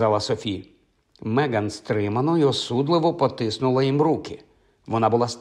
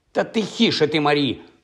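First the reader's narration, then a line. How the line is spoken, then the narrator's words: Sharp shout over chatter. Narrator (Ukrainian): прикрикнула, перекривши чужоземну балаконину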